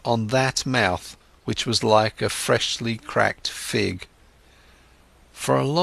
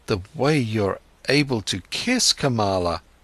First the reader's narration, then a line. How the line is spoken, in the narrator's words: stammered Siddhartha